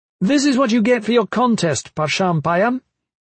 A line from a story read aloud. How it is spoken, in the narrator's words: Liv shouted